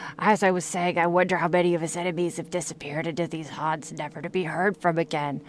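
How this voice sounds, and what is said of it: Usual voice. Nothing is said of it.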